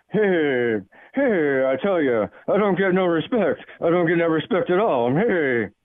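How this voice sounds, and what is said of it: Rodney Dangerfield impression. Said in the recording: “my Cal in Vegas impersonation ... That was a great call, Rodney.”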